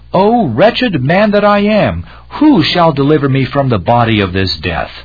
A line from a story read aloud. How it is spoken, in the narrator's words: Frequently he cried out with Paul